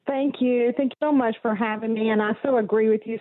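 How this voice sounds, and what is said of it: Mixed Texas and Arkansas Southern accent. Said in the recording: “my accent is it's a hodgepodge. I was born and raised in Texas ... what some might call a speech impediment ... when you take Arkansas and you take Texas, you come up with this accent”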